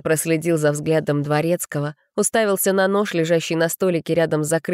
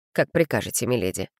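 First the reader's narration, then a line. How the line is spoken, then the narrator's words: Dry, playing along. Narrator (Russian): сухо отозвался Олаф, подыгрывая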